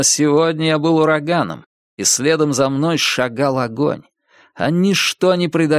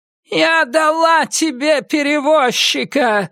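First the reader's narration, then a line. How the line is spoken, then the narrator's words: Shouting. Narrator (Russian): снова крикнула она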